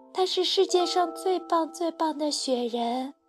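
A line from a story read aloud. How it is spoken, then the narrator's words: Soft. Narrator (Chinese): 小熊轻声说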